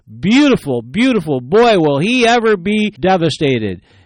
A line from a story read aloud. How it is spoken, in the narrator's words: With revenge in her eyes, she smiled and she exclaimed